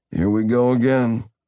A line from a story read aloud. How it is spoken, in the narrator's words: Zack groaned